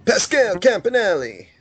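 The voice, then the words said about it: Put-on Italian accent. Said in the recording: “In my Italian voice”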